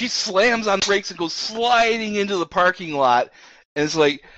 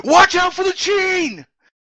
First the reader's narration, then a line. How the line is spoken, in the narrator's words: to yell